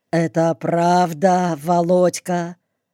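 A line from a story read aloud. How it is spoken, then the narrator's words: Dead, hollow voice. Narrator (Russian): Сергей каким-то мертвым голосом глухо спросил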